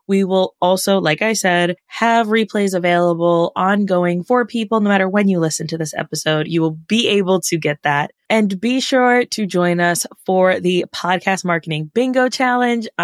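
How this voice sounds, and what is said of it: Excited, enthusiastic voice. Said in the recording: “I'm excited. Obviously, you can hear it in my voice.”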